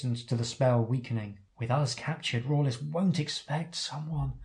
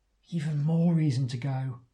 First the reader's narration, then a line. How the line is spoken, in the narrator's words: Edas gasps